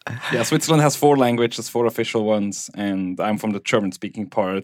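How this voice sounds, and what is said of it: Swiss German accent. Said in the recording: “you do have a distinct accent ... Swiss German”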